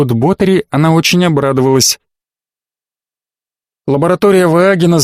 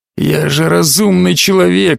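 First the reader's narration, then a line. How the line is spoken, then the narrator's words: Hoarse complaint. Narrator (Russian): хрипло пожаловался он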